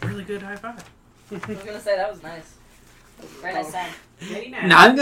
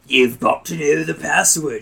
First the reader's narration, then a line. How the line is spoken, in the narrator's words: she growls